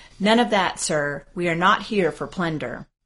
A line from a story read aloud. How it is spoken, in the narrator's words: The outraged general sternly exclaimed